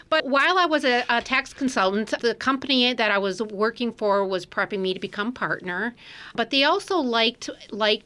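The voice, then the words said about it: Wisconsin American accent. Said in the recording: “an accent from Wisconsin”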